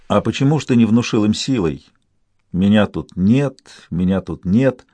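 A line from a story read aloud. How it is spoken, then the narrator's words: Soft question. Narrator (Russian): Я мягко спросил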